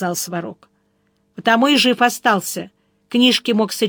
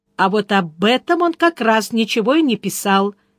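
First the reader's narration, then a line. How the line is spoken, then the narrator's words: Exclaiming. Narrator (Russian): воскликнула Яна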